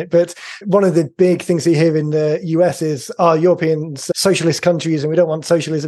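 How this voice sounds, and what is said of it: Non-local, non-American accent. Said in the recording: “as you can tell from the accent, I'm not a local”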